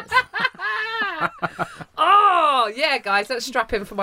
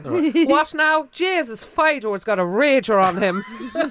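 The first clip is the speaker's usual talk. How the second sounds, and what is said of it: Attempted Cork Irish accent. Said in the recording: “my attempt at a Cork accent”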